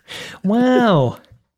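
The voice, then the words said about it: Owen Wilson impression. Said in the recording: “do your Owen Wilson impression ... It's a one word impression.”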